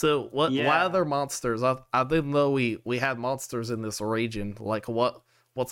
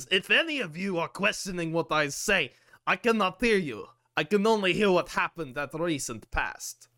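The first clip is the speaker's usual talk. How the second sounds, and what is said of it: Slurred speech with Russian accent. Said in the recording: “he's just basically slurring his words at this point ... I also have a Russian accent now”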